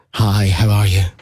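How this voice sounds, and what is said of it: Put-on sexy voice, sounds creepy. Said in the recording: “Do you want me to put my sexy voice on, like Phoebe from Friends? ... That sounds creepy. That doesn't sound sexy. That sounds creepy.”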